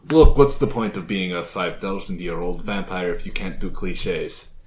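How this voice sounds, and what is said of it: Put-on Transylvanian vampire accent. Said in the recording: “Hence the accent. ... I was being Polish. ... That's not a Polish accent. That's ... a fucking Transylvanian accent.”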